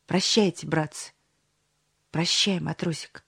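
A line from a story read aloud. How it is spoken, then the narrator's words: Trembling voice. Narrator (Russian): дрогнувшим голосом произнес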